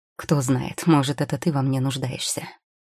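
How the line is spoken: Dry chuckle, old man. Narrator (Russian): Сухо усмехнулся старик

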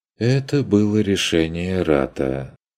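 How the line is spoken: Sighing. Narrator (Russian): вздохнул Штюбинг

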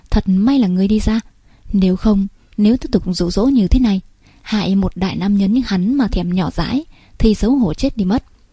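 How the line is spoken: Two muttering inwardly together. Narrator (Vietnamese): hai người không hẹn mà cùng lẩm bẩm trong lòng

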